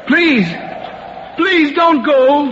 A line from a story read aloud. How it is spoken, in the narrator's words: he cried out after him